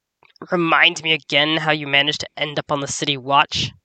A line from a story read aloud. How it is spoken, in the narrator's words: Nerix growled